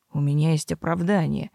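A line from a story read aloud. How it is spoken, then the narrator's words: Gloomy. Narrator (Russian): мрачно заключил он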